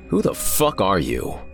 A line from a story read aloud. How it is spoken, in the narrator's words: snarled